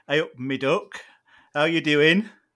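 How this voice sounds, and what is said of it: Nottinghamshire accent greeting. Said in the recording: “You could move to Nottinghamshire, where I'm from, and I can give you a little bit of a greeting from my neck of the woods”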